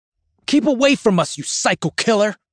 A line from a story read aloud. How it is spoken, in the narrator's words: He snaps, spitting at me